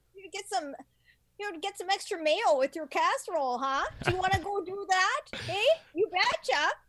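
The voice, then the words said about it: Exaggerated Minnesotan accent. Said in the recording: “I hate those accents ... There's not a Siri Minnesotan accent”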